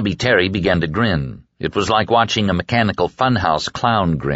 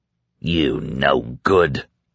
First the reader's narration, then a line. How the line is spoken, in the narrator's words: Dave snarled